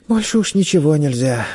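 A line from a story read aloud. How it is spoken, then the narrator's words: Sighing boy. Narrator (Russian): вздохнул мальчик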